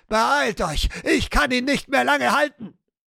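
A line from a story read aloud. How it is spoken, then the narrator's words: Shouting. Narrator (German): schrie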